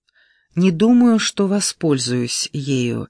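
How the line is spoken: Calm female voice. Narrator (Russian): спокойно произнесла она

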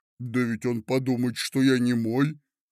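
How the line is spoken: Grumbling. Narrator (Russian): проворчал Афанасий Матвеевич

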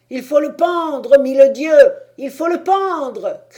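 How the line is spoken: Several shouting. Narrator (French): criaient quelques-uns

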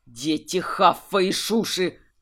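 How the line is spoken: Growl. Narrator (Russian): зарычал Гржак

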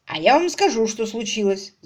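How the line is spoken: Belligerent declaration. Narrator (Russian): заявил он воинственным тоном

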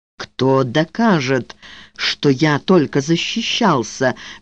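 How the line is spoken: Slow whisper. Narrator (Russian): медленно прошептал он

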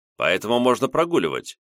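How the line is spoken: Abrupt change of tone. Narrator (Russian): резко сменил тон Виктор Леонидович

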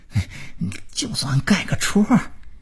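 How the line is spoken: Pleading. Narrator (Chinese): 他哀求着说

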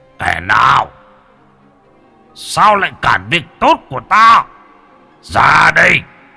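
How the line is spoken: Startled roar. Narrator (Vietnamese): Tướng quân kia bị bất ngờ liền gầm lên

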